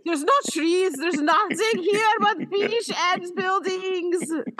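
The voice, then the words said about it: Generic put-on European accent. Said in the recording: “I don't know what that accent is. It's just my general European accent.”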